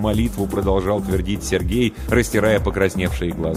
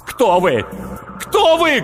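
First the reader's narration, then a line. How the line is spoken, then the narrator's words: Shouting. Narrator (Russian): кричал Сергей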